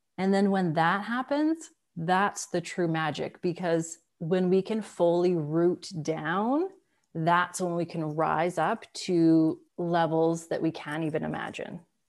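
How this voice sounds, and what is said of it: Speaks with a lovely accent. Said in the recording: “the lovely accent ... it's just so sweet”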